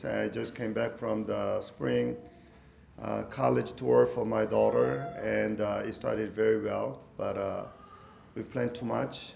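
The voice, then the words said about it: Sick, strained voice. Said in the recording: “I apologize for my voice ... the flu caught me. So my voice”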